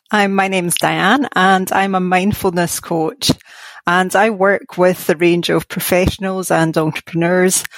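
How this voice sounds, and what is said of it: Scottish Glasgow accent. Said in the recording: “you have a cool accent as well ... I'm from Glasgow in Scotland ... I love that accent ... Is that they call it a brogue?”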